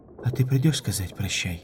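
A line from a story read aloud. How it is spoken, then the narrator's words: Muffled mumble into feathers. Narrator (Russian): пробормотала она из белых грудных перьев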